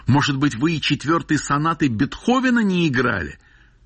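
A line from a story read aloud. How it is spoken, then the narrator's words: Foolish shout. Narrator (Russian): Травин закричал совсем глупо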